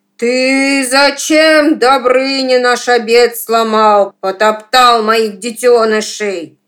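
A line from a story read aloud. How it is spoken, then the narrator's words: Loud monstrous shout. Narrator (Russian): змей Горыныч закричал громким голосом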